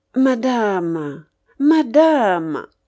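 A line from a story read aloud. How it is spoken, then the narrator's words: Sugary, smooth voice. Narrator (French): dit d'une voix doucereuse De Griers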